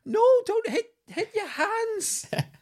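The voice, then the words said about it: Put-on Scottish accent. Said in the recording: “Loving the Scottish accent. ... I don't know why I did the Scottish accent. ... where my throat is a little bit sore at the moment. I think it just sort of morphed.”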